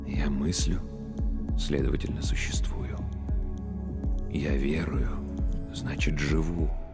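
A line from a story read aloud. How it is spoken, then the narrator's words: Whispered. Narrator (Russian): прошептал священник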